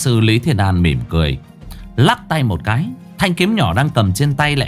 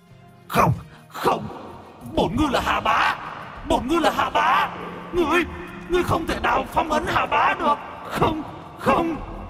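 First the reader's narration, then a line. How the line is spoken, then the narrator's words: Screaming howl. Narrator (Vietnamese): Ngư Tinh gào thét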